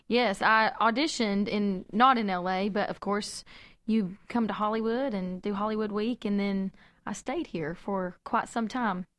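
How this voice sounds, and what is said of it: Southern American accent. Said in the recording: “another Southern accent”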